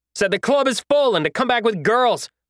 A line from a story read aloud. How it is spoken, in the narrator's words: I said as I desperately avoided another haymaker